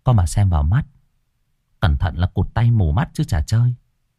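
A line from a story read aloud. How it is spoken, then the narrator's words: Soft speech. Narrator (Vietnamese): Cô Hương nói khẽ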